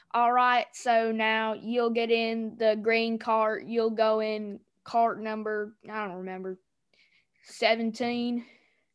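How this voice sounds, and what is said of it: Imitates another person's accent. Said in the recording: “Your accent. It's on point.”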